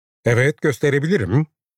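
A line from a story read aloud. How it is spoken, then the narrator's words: Very loud voice. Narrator (Turkish): dedi Bernard çok yüksek bir sesle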